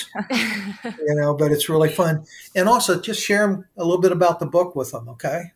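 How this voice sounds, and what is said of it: Slightly hoarse voice. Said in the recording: “my voice is getting a little hoarse”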